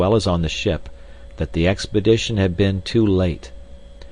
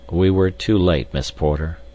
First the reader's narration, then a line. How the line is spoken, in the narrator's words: he replied sadly